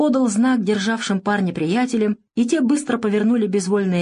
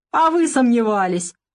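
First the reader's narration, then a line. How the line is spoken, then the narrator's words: Pleased laughter. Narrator (Russian): Довольно рассмеялся Сиплый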